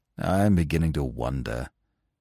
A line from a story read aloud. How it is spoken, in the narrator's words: said Eustace gloomily